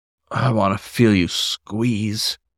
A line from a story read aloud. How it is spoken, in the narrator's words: he growled